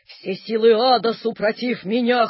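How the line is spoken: Wheezing. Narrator (Russian): хрипел

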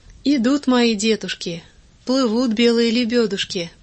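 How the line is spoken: Tender, affectionate. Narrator (Russian): проговорит ласково

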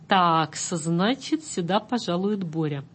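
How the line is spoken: Quiet old man. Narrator (Russian): Старичок в панаме сурового полотна негромко заметил

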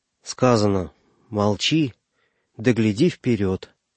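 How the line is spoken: Gentle, affectionate. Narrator (Russian): ласково ответил Егоркин

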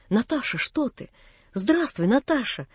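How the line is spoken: Timid, frightened. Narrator (Russian): робко проговорил он с каким-то испугом

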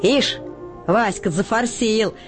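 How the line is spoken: Mocking. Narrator (Russian): насмешливо отзывается Котька

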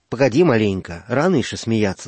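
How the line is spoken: Calm old man. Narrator (Russian): сказал дед спокойно

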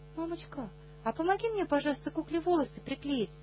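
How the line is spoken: Innocent-voiced request. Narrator (Russian): невинным голосом просит Наташа

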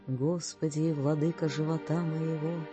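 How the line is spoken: Sighing voice. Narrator (Russian): начинает воздыхающим голосом

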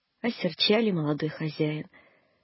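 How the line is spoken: Sad. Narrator (Russian): грустно сказал Сидор

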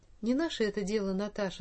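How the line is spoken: Plain. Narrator (Russian): сказала она

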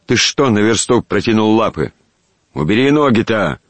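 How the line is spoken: Threatening shout with swearing. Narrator (Russian): грозно крикнул Щукин, прибавляя по обыкновению целый букет ругательств

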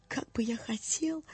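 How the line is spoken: Tearful mutter. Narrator (Russian): Пробормотал он затем, утирая глаза рукавом

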